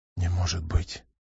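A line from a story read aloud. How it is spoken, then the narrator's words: Horrified whisper. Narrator (Russian): прошептал Сергей в ужасе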